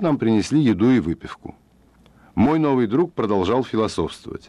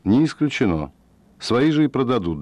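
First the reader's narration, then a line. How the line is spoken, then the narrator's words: Calm considered reply. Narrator (Russian): Фред подумал и спокойно ответил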